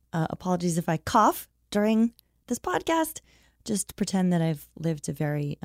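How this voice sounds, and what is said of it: Squeaky voice from a cold. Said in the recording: “my squeaky voice. I'm getting over a cold.”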